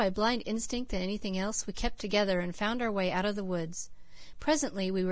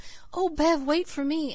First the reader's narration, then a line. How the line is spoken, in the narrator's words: Cecily, behind me, kept gasping out the contradictory sentences